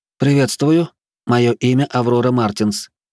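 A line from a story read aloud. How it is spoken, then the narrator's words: Pleasant melodic female voice. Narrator (Russian): произнесла женщина приятным мелодичным голосом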